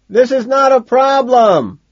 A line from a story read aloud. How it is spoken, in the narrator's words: he shouts